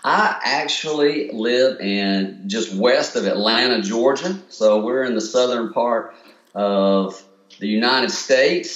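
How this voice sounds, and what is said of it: Mild Southern US accent. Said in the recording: “with the southern part of the states, you kind of get you grow up with an accent, so I get a little bit of that”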